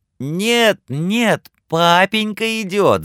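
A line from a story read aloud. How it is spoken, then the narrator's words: Children squealing together. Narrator (Russian): запищали младшие Крэтчеты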